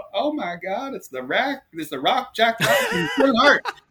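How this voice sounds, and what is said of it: Thick Southern US accent. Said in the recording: “this woman in a very thick Southern accent.”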